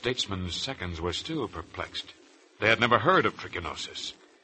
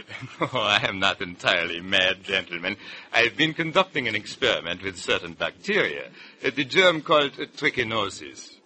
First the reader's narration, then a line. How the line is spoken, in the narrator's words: Virchow, seeing their bewilderment, chuckled quietly and explained